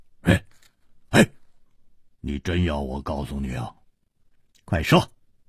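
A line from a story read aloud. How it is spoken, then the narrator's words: Laughing. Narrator (Chinese): 笑着说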